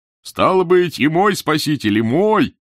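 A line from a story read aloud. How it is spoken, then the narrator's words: Shouting. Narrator (Russian): кричал Долгорукой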